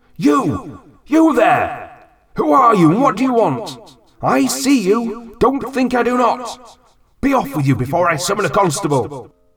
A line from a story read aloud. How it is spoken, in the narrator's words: I shout